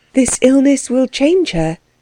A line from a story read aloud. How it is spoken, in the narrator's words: she added, wistfully